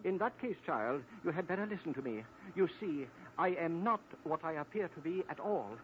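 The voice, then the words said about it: Put-on English accent. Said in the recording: “let me drop this silly English accent... listen to my voice change... Mr. Tweedles, you've changed your voice.”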